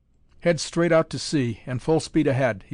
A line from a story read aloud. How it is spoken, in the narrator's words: he shouted